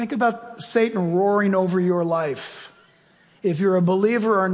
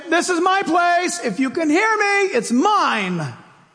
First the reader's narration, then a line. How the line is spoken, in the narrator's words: When it roars, saying